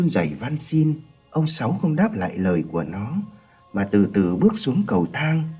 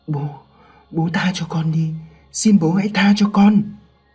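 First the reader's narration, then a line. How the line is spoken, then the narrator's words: Trembling boy. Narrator (Vietnamese): Thằng Sinh run rẩy nói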